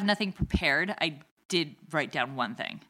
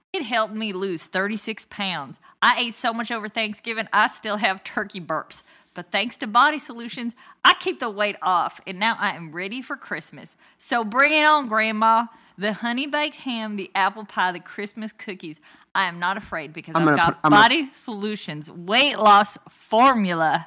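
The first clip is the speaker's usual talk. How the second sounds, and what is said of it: Put-on Dallas accent. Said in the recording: “should I do this in a Dallas accent? I think I should.”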